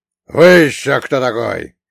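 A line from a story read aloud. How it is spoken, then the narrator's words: Growled. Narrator (Russian): прорычал сперва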